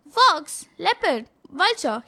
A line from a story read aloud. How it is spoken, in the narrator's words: shouted